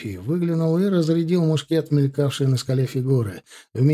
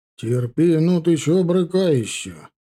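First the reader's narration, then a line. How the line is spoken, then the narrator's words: Grumbled. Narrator (Russian): проворчал эскадронный эскулап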